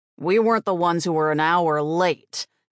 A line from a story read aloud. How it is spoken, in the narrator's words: Gunther snapped